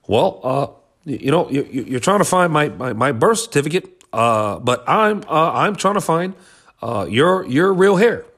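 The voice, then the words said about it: Barack Obama impression. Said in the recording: “My Obama impression's gone. It's gone stale, man.”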